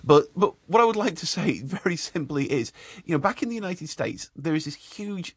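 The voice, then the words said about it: Retained British accent. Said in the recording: “The accent stayed, though. ... one has to retain one's royal bearing, don't you know?”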